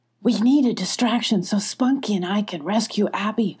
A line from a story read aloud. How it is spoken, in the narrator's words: whispered Molly